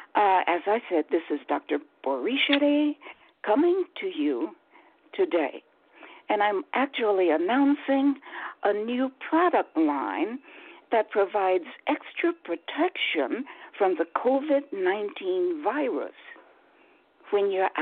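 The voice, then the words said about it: Slightly hoarse voice. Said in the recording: “forgive my voice. I'm a little bit hoarse,”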